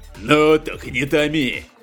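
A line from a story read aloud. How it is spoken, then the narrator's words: Rude curt pirate. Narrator (Russian): грубо бросил пират Аль-Ваджи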